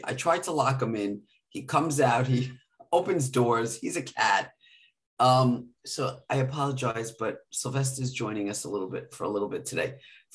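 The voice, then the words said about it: Hoarse, raspy voice. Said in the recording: “a little hoarse and raspy, more than usual”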